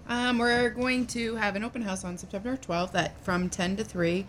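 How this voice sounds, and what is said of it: Smooth, polished radio voice. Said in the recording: “You sound tremendous, by the way. You have a very good radio voice.”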